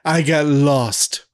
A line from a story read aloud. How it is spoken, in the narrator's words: Whitehead laughs a little to himself and says